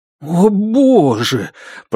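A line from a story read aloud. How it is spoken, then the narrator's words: Groaning. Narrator (Russian): простонал правонарушитель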